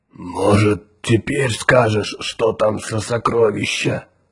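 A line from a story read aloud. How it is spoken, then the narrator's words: Hoarse giant question. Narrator (Russian): хрипло спросил гигант Тикар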